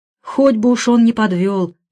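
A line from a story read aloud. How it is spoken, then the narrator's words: Sighing. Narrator (Russian): вздохнула Фрида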